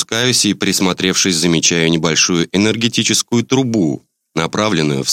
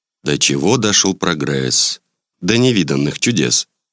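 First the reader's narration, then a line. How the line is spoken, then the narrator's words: Humming a song under breath. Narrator (Russian): Промурлыкав себе под нос строчку из песенки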